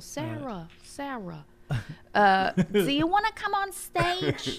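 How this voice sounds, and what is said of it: Imitates thick New York accent. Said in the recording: “the accent was ... Thick ... Real. Real New York. ... Thick on that one. ... That's bad ... that's not good.”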